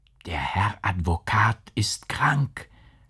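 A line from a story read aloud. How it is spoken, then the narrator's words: Whisper from behind. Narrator (German): flüsterte es hinter ihnen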